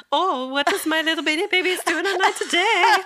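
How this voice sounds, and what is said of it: Imitates another person's accent. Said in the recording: “Her accent, that was good.”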